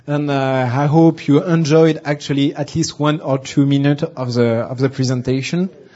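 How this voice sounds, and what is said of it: Heavily accented English. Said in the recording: “my bad accent”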